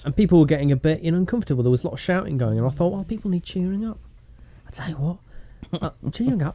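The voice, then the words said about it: Slipping into a Southern accent. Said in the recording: “I'm talking Southern again. You know, like I keep slipping in and out of it.”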